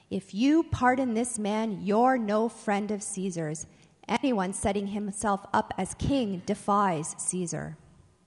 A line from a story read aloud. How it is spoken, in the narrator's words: shouted him down